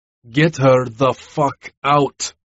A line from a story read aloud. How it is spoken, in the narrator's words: roared when I couldn't take it anymore